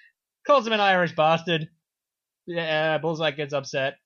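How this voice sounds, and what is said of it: Usual voice. Nothing is said of it.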